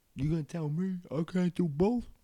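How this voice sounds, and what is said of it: Rocky-style movie character accent. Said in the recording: “I think that was like a Rocky. I don't know what the hell accent that was.”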